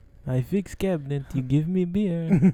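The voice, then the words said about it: Put-on Kazakh accent, broken English. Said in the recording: “He's from Kazakhstan now... the only reason I do that accent”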